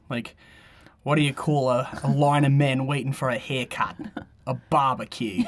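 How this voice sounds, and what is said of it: Put-on Australian accent. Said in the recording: “I feel like an Australian accent. ... Funny, I couldn't do that, but that's funny. Well done.”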